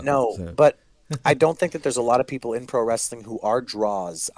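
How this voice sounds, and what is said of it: Congested, nasal-sounding voice. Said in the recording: “giving shit to my accent because my oh, fucking nose is still making me sound like”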